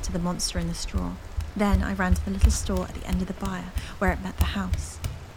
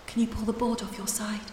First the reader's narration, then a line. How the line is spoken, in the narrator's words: I called